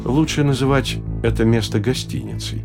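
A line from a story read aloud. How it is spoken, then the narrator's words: Slow and gentle. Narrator (Russian): по-прежнему не спеша и мягко продолжал Салтаханов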